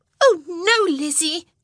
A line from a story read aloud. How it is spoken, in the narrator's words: Jane shrieked